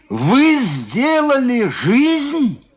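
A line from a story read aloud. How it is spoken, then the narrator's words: Shouting. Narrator (Russian): крикнул он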